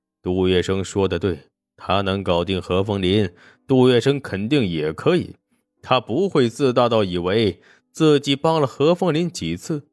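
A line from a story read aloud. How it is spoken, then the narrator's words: Soft sigh. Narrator (Chinese): 沈梦生不禁轻叹口气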